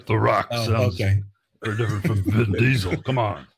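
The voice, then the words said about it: Bad impression of a gravelly movie-star voice. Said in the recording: “is that an impersonation of Vin Diesel? Because I couldn't tell because it sounded so much like both of them... it pained me to hear you. That's how bad it was.”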